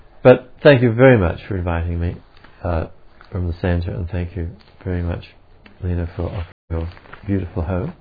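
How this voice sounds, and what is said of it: Australian accent. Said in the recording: “the boring old Australian accent”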